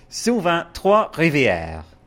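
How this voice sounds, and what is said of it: Exaggerated French accent. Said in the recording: “Do it really French ... That wasn't a Quebecois accent, though.”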